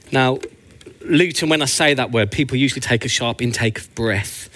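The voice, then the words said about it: Birmingham English accent. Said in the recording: “as you can tell by my beautiful accent, I'm actually from Birmingham”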